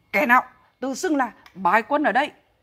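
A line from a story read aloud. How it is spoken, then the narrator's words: Barking shout. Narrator (Vietnamese): Mã Vinh quát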